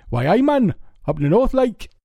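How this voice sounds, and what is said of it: Poor imitation of Newcastle-under-Lyme accent. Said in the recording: “He was from Newcastle under Lyme, which I, I don't know if you, you're familiar with the accent. Um, I'm terrible at doing it ... They talk like that”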